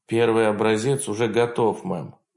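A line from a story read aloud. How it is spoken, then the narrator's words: Tired. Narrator (Russian): устало ответила Сантос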